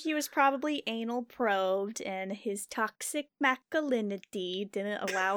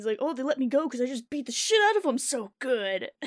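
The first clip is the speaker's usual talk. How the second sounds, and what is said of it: Macho tough-guy character voice. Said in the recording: “your impression of this guy as, like, this, like, perfect macho douchebag”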